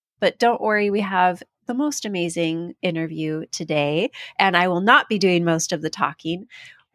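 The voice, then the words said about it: Slightly off, congested voice. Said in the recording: “I'm going to start off with a quick apology for the way that I sound. I have a bit of a cold. ... if I sound a little off”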